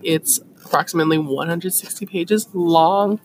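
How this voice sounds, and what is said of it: Voice cracks. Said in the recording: “My voice cracked. That's so ugly”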